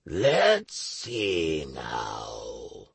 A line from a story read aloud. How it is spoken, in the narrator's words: drawled the demon